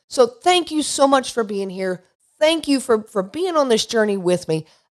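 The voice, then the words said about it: Unwell voice, clearing throat. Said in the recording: “apologize for my voice ... clearing my throat ... I have been under the weather”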